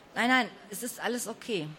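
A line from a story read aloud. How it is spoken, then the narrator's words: Plain. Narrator (German): sagte sie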